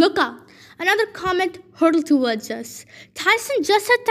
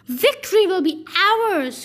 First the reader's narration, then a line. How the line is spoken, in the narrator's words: roared Bob the cannibal